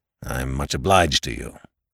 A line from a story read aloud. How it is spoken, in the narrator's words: growled Mr